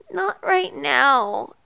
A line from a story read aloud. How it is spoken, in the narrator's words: Erica mumbled